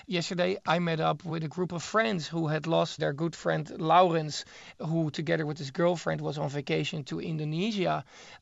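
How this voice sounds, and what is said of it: Dutch accent in English. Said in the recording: “I am originally from the Netherlands, as my accent is, of course, also a dead giveaway.”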